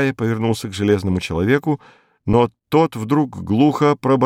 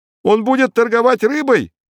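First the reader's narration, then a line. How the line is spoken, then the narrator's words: Shout from crowd. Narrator (Russian): крикнули в толпе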